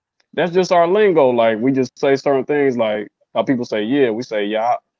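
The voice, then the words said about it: Detroit accent. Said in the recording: “Detroit? ... Where do y'all get that accent from?”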